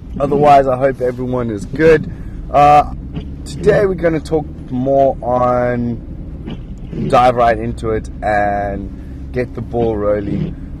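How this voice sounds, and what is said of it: Sick, funny-sounding voice. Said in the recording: “If my voice sounds funny, it's because I've gone a bit sick and it's 20 to 5 in the morning”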